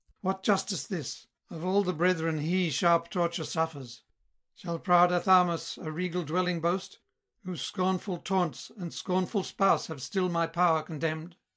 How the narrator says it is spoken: angry cried

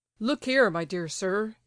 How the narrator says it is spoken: he began, addressing Ptitsin in a very loud tone of voice

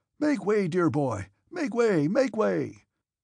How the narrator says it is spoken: Count Ilya Rostov, laughing and repeating the words

